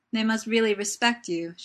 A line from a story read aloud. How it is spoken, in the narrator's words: she says laughingly